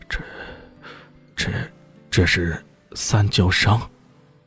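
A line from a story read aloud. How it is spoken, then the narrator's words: Murmuring. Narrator (Chinese): 严无敌……最终喃喃的说道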